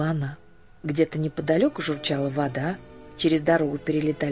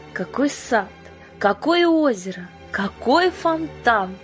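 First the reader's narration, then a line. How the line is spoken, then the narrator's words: Loud admiring exclamation. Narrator (Russian): громко восхищалась Жанна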